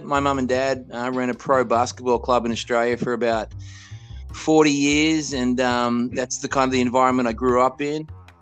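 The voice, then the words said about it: Australian accent. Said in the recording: “You guys hear the tone. You hear the accent. ... I'm from Australia. I grew up in Australia.”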